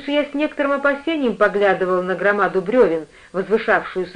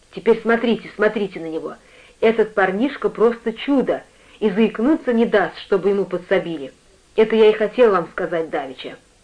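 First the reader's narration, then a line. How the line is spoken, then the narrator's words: Hoarse whisper behind hand. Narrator (Russian): Питер, прикрыв рот ладонью, шепнул хрипло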